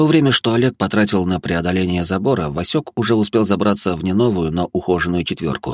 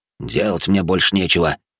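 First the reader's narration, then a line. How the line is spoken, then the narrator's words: Snorting. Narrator (Russian): фыркнул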